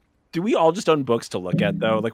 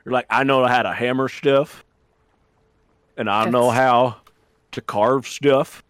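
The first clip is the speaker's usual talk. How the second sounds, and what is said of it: Put-on accent. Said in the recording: “That accent is offensive to my people, actually. ... It's not a ginger accent.”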